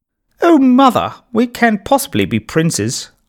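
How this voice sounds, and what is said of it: Posh princely accent. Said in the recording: “in a posh princely accent”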